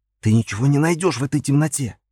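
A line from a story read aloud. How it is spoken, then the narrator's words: Whisper. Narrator (Russian): прошептал я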